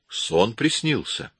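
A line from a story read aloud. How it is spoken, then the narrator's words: Calm retort. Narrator (Russian): спокойно парировал Коридон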